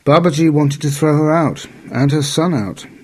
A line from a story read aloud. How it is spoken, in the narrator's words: she exclaimed, bursting into a flood of tears